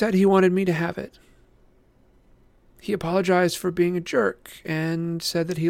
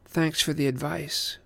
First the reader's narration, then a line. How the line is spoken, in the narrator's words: she said coldly